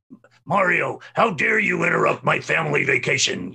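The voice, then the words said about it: Imitates another person's voice. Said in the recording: “I did my best Scott Burns, you know, impersonation of the lines from Sunshine”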